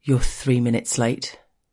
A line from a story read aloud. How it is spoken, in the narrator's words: he tells me gruffly